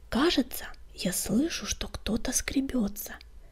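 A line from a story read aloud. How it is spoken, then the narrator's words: Whispering fern. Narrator (Russian): прошептал папоротник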